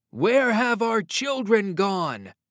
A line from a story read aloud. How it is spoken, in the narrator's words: shouted